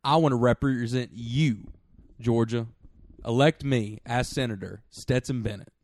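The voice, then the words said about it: Put-on Southern accent. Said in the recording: “that Southern accent just now”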